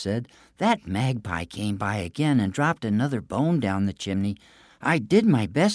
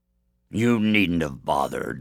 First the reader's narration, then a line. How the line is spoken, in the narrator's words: the giant grumbled